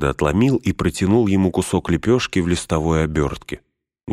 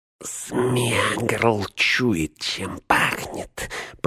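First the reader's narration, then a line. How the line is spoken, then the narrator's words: Through clenched teeth. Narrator (Russian): процедил он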